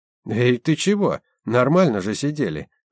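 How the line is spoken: Exclaiming. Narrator (Russian): воскликнул Валентин

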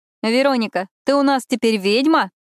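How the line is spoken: Laughing. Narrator (Russian): рассмеялась Виктория

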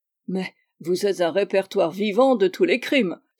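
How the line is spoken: Laughing exclamation. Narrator (French): s'écria Stamford en riant

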